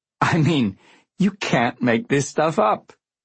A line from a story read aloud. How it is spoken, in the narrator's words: he laughed